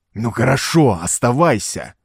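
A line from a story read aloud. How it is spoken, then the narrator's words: Hissed. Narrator (Russian): зашипел он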